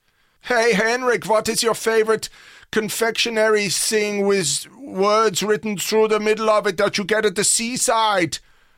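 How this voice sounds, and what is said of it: Terrible put-on German accent. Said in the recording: “apologize to all of Germany for that terrible accent.”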